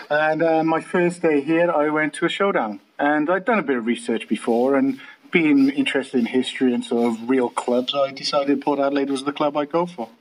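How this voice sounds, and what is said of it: Welsh accent. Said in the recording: “I'm from Wales, as you can tell by the beautiful accent”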